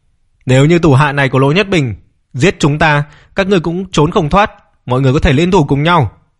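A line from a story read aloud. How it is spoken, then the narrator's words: Loud address. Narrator (Vietnamese): Viên Kim Hoa lớn tiếng nói với các cao thủ ma môn tụ ma tông Mạnh Lâm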